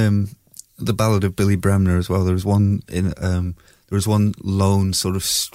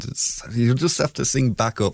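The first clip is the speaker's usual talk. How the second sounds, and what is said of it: Fake Scottish accent. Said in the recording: “I'm putting on a fake Scottish accent.”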